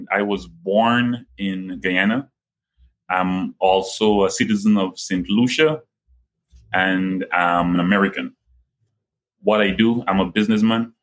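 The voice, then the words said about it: Guyanese accent. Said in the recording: “most people, they hear the Guyanese accent.”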